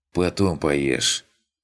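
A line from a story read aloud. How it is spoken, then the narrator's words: Tired punning remark. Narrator (Russian): устало скаламбурил Виктор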